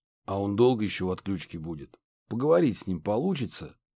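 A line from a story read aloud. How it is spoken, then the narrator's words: Hoarse, insolent question. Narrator (Russian): спросил хриплый голос с наглыми нотками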